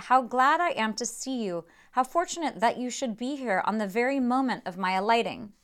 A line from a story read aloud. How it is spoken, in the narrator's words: exclaimed he